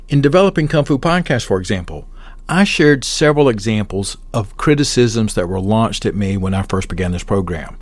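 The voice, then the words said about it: Southern American accent. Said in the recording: “My accent is too Southern. ... Southern long-winded accents”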